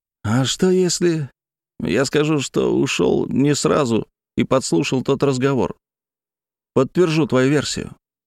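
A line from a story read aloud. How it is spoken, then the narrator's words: Quiet speech. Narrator (Russian): Борис тихо сказал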